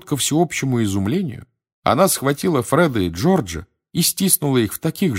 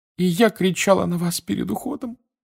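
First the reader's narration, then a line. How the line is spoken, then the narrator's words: Sobbing again. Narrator (Russian): вновь зарыдала миссис Уизли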